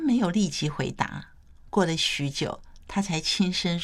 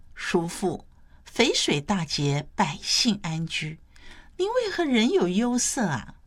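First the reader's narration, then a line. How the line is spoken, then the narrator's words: Asking with a smile. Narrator (Chinese): 谢道韫笑着问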